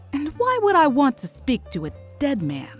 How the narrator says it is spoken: He laughed

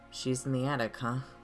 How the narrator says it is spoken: I sighed

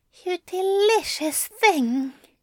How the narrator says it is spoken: Aziraphale whispered

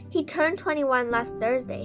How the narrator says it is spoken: he said

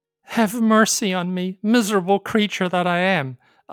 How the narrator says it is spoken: Afu pleaded

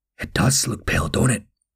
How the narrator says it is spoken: Nash whispered

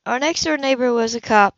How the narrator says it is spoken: she said huskily

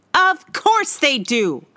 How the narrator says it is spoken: I shouted

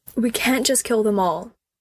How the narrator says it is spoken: he blurted out

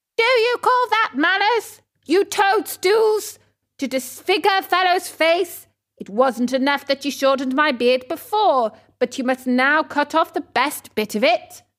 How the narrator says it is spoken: He yelled to them

